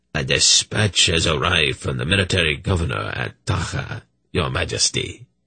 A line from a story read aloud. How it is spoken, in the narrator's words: he rasped